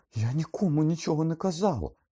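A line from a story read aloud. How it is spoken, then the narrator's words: Shrieking. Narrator (Ukrainian): заверещала Герміона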